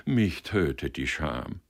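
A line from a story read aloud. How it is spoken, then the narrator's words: Murmured. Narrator (German): murmelte Hoheneichen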